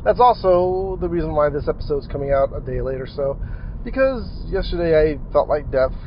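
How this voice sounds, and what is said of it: Weird-sounding, unwell voice. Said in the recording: “my voice sounds a little bit weird, it's because I feel kind of horrible”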